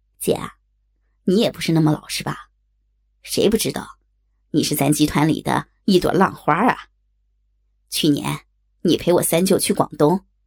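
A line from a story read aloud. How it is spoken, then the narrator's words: Mischievous, teasing. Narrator (Chinese): 他也一脸坏笑的冲我说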